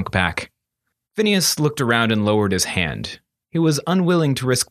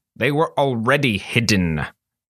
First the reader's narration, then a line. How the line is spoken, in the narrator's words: Phineas snapped